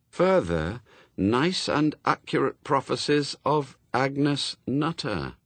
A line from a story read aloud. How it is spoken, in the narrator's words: read slowly